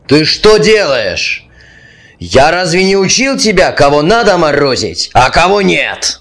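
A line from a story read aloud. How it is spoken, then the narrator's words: Yelled. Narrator (Russian): Заорал он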